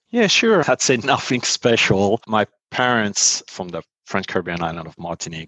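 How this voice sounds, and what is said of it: French accent. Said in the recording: “by virtue of the accent, I think maybe listeners will know that you grew up in Paris or outside of Paris”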